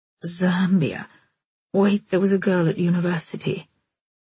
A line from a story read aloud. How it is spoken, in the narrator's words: Oliver Spike went on in his weary, wintry voice